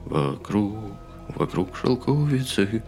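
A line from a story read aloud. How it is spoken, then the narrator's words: Whispered singing. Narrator (Russian): шепотом запел Келлоган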